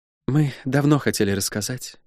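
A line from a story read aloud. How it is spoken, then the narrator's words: Soft, soothing. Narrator (Russian): мягко сказал Рона, сглаживая неловкость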